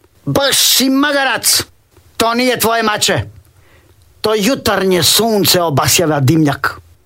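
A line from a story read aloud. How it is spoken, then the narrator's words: Woman shouting. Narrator (Croatian): Žena vikne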